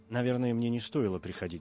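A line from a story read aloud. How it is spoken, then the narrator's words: Plain. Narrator (Russian): сказал он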